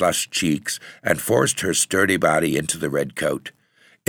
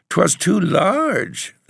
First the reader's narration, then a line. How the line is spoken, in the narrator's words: the child whimpered